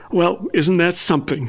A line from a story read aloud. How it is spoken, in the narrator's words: laughed, her voice light with surprise and amusement